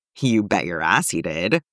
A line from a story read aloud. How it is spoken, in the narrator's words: Eddie confirms